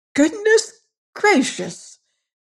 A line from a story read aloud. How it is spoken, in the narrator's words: they cried